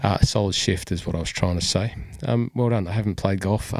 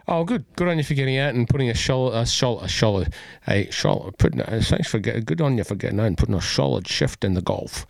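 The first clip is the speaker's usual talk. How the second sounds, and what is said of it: Poor imitation of another person's voice. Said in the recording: “That was a very bad Sean Connery impersonation.”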